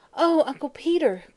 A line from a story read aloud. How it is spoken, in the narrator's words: cried Mary Louise, distressed